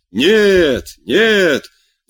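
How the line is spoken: Crowd shouting from everywhere. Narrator (Russian): закричали со всех сторон

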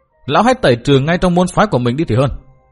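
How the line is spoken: Sneering. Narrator (Vietnamese): Khắc Ngọc cười nhạt nói

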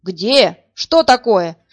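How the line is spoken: Roaring. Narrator (Russian): взревел Ложкин

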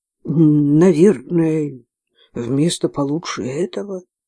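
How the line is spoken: Mumbled. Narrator (Russian): промямлила я

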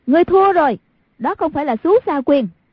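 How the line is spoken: Exclaiming. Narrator (Vietnamese): Hoàng Dung kêu lên

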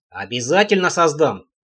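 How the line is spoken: Stubborn grumble. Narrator (Russian): упрямо пробурчал Трэмп

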